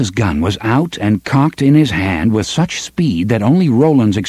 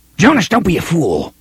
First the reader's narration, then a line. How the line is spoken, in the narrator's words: Lengil snarled